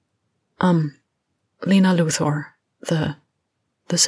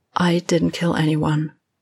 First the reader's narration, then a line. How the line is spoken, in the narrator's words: she said evenly